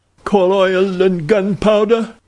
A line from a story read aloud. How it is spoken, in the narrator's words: cried Monsieur Thuron